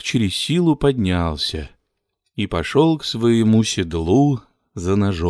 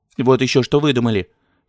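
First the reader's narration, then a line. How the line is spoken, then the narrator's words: Angry woman. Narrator (Russian): сердито сказала жена Торчакова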